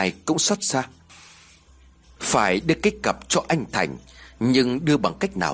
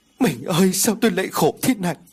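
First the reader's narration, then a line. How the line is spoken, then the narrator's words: Sobbing, wailing. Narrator (Vietnamese): Tiếng của bác Ngà đang khóc lóc kêu gào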